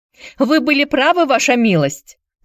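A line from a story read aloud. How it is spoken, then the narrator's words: Shouting. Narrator (Russian): закричал он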